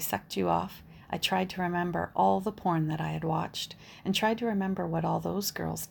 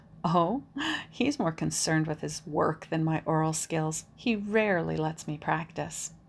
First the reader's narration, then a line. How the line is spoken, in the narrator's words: let out a sinister laugh and I said